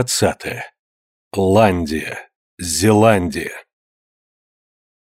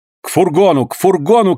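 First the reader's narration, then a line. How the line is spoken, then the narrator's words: Shouting. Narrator (Russian): крикнул Джон Манглс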